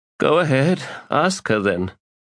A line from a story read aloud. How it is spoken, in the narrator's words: Sighing, Nemanda said